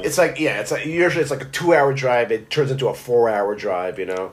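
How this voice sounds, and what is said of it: Brooklyn accent. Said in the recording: “that accent, the, you know, the Brooklyn ... You got the accent.”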